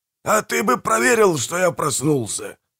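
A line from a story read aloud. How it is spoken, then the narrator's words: Grumbling. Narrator (Russian): проворчал Манфрид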